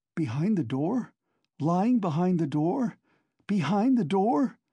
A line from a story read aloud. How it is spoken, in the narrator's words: Raskolnikov cried suddenly, staring with a blank look of terror at Razumihin